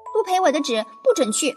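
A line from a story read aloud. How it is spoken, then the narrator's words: Shouting. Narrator (Chinese): 夏美美叫道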